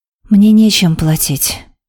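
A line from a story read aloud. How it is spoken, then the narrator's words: Fearful breathless exhale. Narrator (Russian): выдохнула Хейт, почти молясь Аше, чтобы глава не разгневалась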